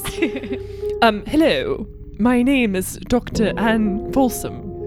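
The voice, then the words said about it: Put-on British accent. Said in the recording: “quickly decides to go for a British accent ... the way she says words nice”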